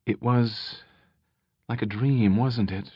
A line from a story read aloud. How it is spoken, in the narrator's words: she said softly